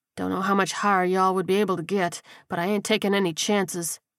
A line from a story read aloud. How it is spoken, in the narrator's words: he muttered